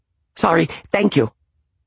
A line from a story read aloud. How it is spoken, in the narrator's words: he said, in a panicky tone